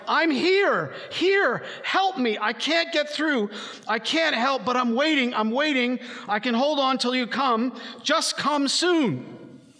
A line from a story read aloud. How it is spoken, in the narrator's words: the despairing man, his heart almost bursting with excitement and waiting, screams with all his might